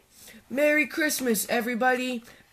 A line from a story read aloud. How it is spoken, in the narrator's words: Badger cried